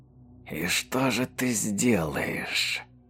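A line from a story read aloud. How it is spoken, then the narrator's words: Whispered in ear. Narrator (Russian): Прошептал некто на ухо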